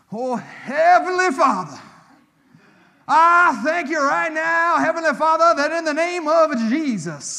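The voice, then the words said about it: Exaggerated, drawn-out prayer voice. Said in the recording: “you don't have to change your voice when you pray ... where do those extra syllables come from?”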